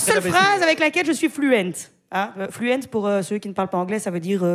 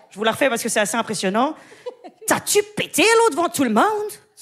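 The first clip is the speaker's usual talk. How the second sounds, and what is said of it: Put-on Québécois French accent. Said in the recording (French): “C'est un accent d'AVC ... c'est l'accent québécois ... C'est le québécois”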